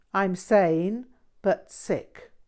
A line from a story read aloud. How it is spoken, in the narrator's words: Paltrow replied